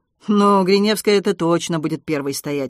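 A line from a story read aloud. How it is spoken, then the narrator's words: Snorted. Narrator (Russian): хмыкнул Вася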